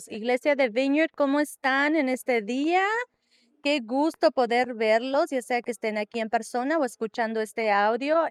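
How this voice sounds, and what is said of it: Spanish spoken with London English accent. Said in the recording (Spanish): “¿tú piensas que tengo un impedimento de habla? No, es que tengo un acento de allá yo vengo de otro país ... De allá de Londres”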